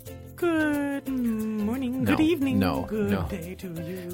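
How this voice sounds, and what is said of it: Hillary Clinton impression, Mrs. Doubtfire-like. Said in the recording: “What's that voice? ... My Hillary Clinton impression? ... It's a little bit Mrs. Doubtfire.”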